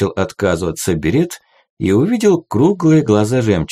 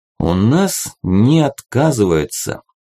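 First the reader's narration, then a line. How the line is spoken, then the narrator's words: Slow, deliberate. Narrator (Russian): медленно произнес Стронг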